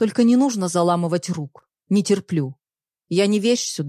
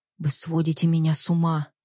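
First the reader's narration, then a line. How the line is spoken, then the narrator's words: Whisper. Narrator (Russian): прошептала Екатерина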